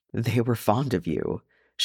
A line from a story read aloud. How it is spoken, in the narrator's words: she said thickly